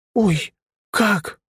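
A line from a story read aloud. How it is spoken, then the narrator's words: Exclaim. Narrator (Russian): воскликнула первая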